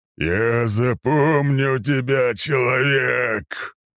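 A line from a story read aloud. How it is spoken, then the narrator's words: Thunderous roar. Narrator (Russian): проревело пространство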